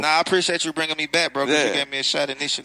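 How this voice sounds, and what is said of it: Thick Atlanta accent. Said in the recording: “He really from Atlanta. You heard that accent. That shit is thick.”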